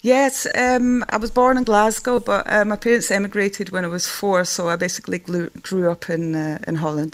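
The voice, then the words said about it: Scottish accent. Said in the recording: “have you held on to your Scottish accent since you were 4? ... Yes. ... It kind of sticks, yes.”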